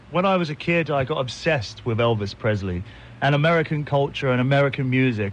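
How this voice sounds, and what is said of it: British accent. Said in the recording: “you're from the UK ... With that accent of yours, old boy”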